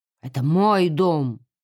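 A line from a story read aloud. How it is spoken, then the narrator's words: Grumbled. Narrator (Russian): буркнул его отец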